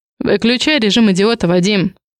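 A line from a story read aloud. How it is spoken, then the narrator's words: Sharp, curt. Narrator (Russian): бросаю резко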